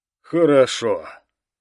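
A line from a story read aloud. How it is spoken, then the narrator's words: Long sigh. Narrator (Russian): Протяжно вздохнув, сказал Алластер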